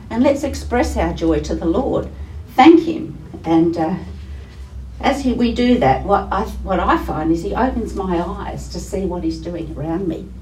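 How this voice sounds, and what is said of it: Voice affected by a cold. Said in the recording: “Sorry, I'm just coming off a cold. My voice is... It's not back to normal.”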